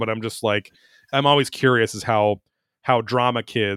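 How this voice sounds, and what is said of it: Usual voice. Nothing is said of it.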